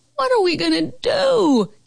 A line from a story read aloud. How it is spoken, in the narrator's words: Carol Costa howled